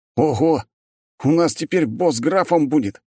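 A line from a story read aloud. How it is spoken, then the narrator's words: Exclaimed. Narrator (Russian): снова воскликнул командир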